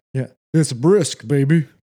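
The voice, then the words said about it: Poor imitation of another person's voice. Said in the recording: “That was a terrible impression. ... Your Sylvester sounds way worse than your Arnold Schwarzenegger.”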